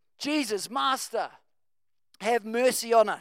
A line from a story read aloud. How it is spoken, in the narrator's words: at a distance shouting